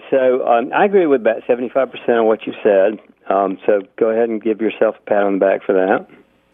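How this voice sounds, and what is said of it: Sarcastic tone. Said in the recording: “I'm just being sarcastic like you”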